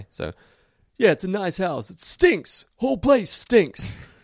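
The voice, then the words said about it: Slow, deep tough-guy movie voice. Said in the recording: “the way to get Lou's voice is to do a bad Sylvester Stallone impression... you got to think slow. You got to slow it down a little... Get deeper... a little bit deeper... I'm gonna start with Stallone in Rocky.”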